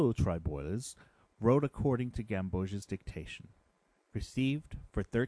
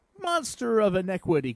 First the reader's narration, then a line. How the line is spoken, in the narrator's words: cried the painter